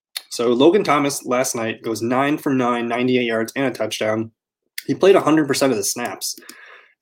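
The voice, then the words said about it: Hoarse, strained voice. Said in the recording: “I'm losing my voice. ... Something in the back of my throat.”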